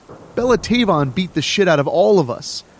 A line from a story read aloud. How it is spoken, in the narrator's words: the other girl yelled